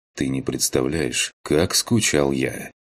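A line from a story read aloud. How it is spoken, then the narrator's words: Quiet. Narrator (Russian): Негромко ответил я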